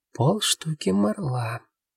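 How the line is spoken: Young man's quiet reply. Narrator (Russian): тихо ответил парень

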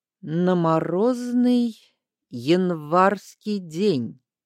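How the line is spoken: Slow, halting answer. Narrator (Russian): ответил Аскольд медленно, словно ему трудно давались слова

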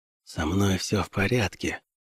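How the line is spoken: Whispering. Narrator (Russian): прошептал он

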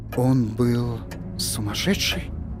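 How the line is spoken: Whispered question. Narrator (Russian): прошептал Торн

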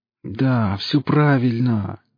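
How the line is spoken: Near moaning. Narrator (Russian): чуть ли не стонал шеф

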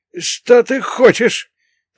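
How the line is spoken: Wheezed. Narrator (Russian): просипел

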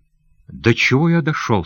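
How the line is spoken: Plain. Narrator (Russian): сказал он

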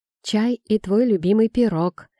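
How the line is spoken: Forced cheerfulness. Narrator (Russian): сообщила она подчеркнуто бодро

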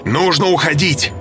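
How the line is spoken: Shouted. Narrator (Russian): закричал Росс

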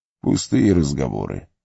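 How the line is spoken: Soft. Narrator (Russian): мягко сказал Гэндальф

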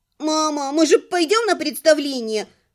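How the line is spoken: Squeaky child turning tearful. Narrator (Russian): пропищал мальчишка и мгновенно сорвался на плаксивый тон

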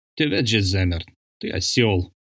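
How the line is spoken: Strained, forced out. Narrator (Russian): выдавил из себя Бол

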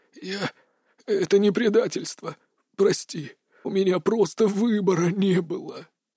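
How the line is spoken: Wheezing dying old man, coughing. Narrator (Russian): просипел старый маг, в котором жизни осталось буквально на несколько дней, и натужно закашлялся

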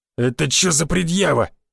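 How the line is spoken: Growl. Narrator (Russian): рыкнул на него Рыло

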